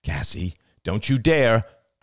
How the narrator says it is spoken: cried Ian

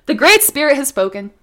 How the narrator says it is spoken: He called out

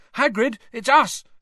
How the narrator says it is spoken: Harry shouted

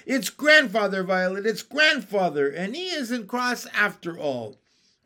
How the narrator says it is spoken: shouting

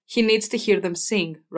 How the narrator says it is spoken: Rob said

